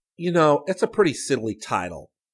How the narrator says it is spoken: Rick grumbled

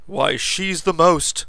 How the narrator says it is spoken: Shocked, Lance cried

